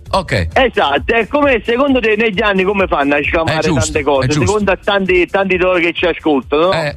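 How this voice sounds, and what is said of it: Non-Tuscan Italian regional accent. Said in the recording (Italian): “l'accento non è toscano”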